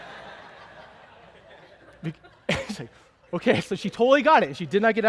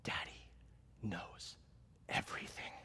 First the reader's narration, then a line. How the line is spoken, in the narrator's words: I whisper into her ear